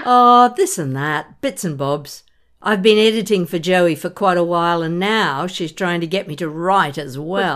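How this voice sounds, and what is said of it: Australian accent. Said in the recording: “That lovely Aussie accent.”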